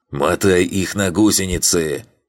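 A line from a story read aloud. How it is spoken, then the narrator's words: Hoarse voice over radio. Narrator (Russian): прохрипел в батл-чате голос комбата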